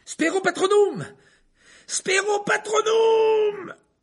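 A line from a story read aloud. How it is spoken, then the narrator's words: Yelling. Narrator (French): hurla Harry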